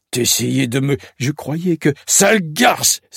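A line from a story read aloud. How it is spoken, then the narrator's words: Exclaimed. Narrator (French): s'exclame-t-il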